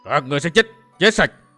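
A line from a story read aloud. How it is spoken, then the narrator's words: Fierce shouts. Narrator (Vietnamese): Vài tiếng hét dần dữ nổi lên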